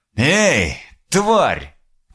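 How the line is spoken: Shouted after someone. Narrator (Russian): крикнул он ей вслед

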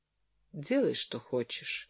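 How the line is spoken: Tired reply. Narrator (Russian): ответила Джоан устало

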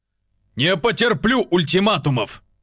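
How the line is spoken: Barking snap. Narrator (Russian): рявкнул Олег

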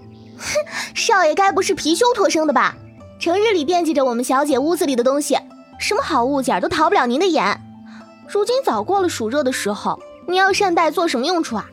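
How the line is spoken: Quick teasing laugh. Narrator (Chinese): 青梅嘴快，在旁笑道

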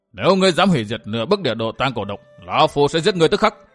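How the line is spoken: Old man's angry shout. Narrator (Vietnamese): Lão quái nhân áo đỏ biển mặt nổi giận quát

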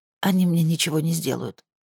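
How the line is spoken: Hoarse rasp. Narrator (Russian): прохрипела Мари

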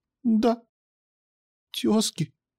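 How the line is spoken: Unsure quiet girl. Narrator (Russian): неуверенно и тихо ответила девочка

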